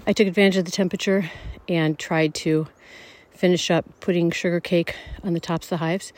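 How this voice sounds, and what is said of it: Out of breath while speaking. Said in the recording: “As you can hear, I'm out of breath because I'm walking in snow”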